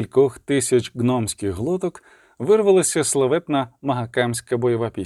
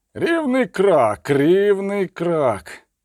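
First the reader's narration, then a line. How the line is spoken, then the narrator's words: Growling. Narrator (Ukrainian): гарчав Барклей Ельс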